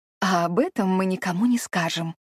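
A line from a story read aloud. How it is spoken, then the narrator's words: Conspiratorial whisper. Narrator (Russian): заговорчески шепнула Эовин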